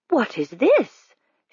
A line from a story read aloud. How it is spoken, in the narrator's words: she exclaimed in what she took to be an appropriately sugary voice